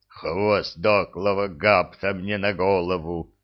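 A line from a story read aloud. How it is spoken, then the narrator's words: Groaning. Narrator (Russian): простонал Храд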